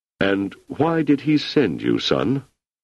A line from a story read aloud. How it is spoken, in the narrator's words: His voice slightly muffled, he said